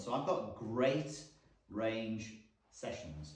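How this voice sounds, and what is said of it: Deliberately slow, careful speech. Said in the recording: “I said that slowly for impact, but also because it was hard for me to say”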